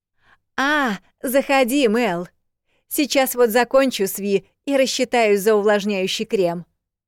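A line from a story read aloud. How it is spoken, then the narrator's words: Loud, over noise. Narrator (Russian): Громко перекрикивая завывание горячего воздуха, сказала Бекки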